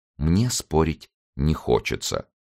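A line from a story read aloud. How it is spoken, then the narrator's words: Calm. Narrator (Russian): спокойно, как советовал ее доктор, сказать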